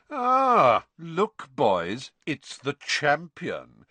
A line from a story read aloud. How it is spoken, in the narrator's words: Malfoy arrived with his familiar sneer firmly in place